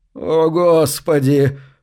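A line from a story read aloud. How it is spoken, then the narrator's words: Groaning. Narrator (Russian): простонал Гарри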